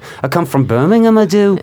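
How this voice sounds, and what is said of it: Put-on Birmingham English accent. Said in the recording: “They have such a crazy accent there ... I can pull that out. Uh, That's pretty good.”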